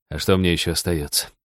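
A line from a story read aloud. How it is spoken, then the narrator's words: Sighing. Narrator (Russian): вздохнул Роджер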